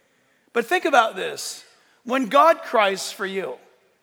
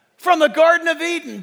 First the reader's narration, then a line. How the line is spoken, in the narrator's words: Jesus cries back from the cross